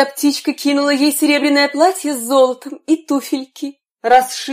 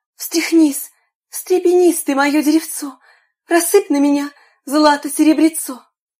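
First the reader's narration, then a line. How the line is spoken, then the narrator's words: Girl's exclamation. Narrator (Russian): заморашка воскликнула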